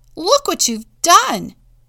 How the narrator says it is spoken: Joe yelled

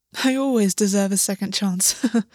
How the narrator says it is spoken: August said, laughing

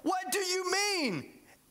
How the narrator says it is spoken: exclaimed Nicodemus

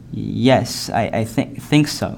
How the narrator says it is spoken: he stuttered, barely able to move his mouth as fearful paralysis crept up his helpless limbs

